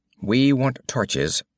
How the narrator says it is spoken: said Moran evenly

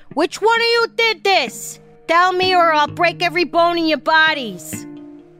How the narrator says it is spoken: She yelled

